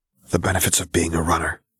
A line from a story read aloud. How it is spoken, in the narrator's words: he whispered with a grin